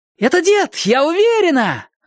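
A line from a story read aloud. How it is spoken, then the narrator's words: Joyful shriek. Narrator (Russian): радостно завопила она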